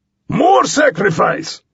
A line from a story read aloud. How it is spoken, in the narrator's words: Skippy bellowed